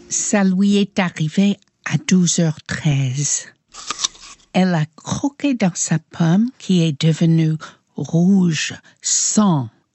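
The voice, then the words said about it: Light American accent in French. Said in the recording (French): “avec un léger accent américain”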